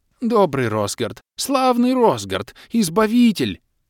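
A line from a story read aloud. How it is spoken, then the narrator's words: Babbling, just-awakened fisherman. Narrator (Russian): Залепетал очнувшийся рыбак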